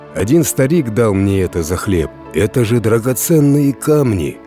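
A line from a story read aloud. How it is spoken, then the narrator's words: Exclaiming. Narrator (Russian): воскликнул крестьянин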